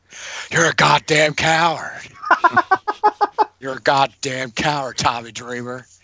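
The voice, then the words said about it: Imitates another person's voice, fading Texas accent. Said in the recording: “my Terry Funk, my exact impression is not, it's kind of slowly like dwindling. I need to get the proper like Texas accent down again”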